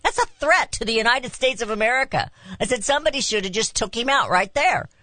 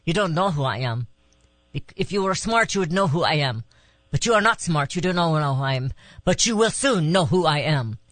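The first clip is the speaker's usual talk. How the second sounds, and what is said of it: Put-on Middle Eastern accent. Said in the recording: “he says in a Middle Eastern accent”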